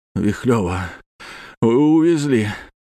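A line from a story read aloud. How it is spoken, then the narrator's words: Breathed out. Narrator (Russian): выдохнул Серега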